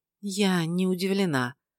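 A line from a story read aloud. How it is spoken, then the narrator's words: Quiet. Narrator (Russian): тихо произнесла Эсси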